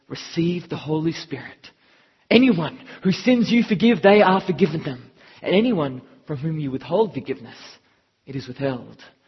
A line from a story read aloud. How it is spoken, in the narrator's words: he breathed on them and said